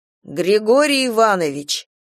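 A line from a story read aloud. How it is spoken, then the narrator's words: Clear, loud, formal meeting tone. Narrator (Russian): четко и громко, как на комсомольском собрании, начал Гена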